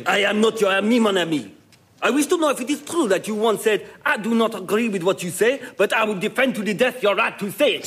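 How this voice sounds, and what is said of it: Outrageous put-on French accent. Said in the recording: “a man whose accent is, if anything, even more outrageous than our own ... the outrageous French accent ... if we're doing the voices”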